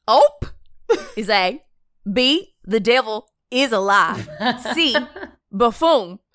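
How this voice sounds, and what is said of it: Put-on Southern American accent. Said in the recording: “In a Southern accent. ... I want you to read this question in a Southern accent. ... Give us your best Southern accent.”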